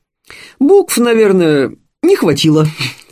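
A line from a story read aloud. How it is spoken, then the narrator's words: Laughing. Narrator (Russian): засмеялся Анатолий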